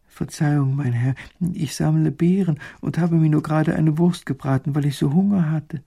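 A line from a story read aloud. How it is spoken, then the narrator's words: Frightened woman. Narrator (German): Die Frau wird ganz ängstlich bei den strengen Worten und sagt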